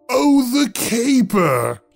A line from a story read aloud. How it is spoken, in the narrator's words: he roared